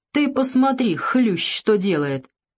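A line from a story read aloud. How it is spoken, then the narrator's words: Laughing. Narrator (Russian): Он засмеялся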